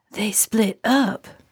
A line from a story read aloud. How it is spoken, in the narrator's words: Narlene said in an exaggerated whisper